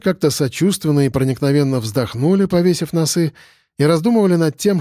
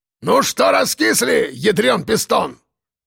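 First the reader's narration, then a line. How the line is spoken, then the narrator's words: Boss barking. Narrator (Russian): гаркнул начальник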